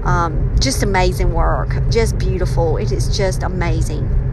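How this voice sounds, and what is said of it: Southern US accent. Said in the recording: “my southern accent ... maybe I might sound a little bit, maybe a little more southern”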